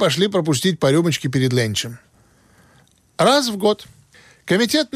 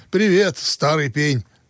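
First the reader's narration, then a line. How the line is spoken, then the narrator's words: Plain. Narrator (Russian): сказал Бинго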